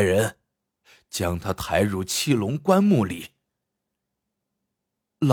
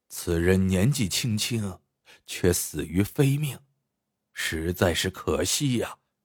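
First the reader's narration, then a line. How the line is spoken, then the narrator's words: Shocked, then sighing. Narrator (Chinese): 徐掌柜大吃一惊，随即叹了口气说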